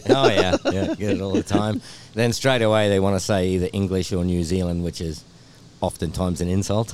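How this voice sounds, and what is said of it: Australian accent. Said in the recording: “See, that sounds so cool. ... Like, the Australian accent ... you have an awkward accent.”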